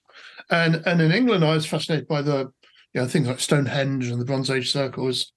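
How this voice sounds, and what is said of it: English accent. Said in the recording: “I grew up in England, as you can probably tell from my accents”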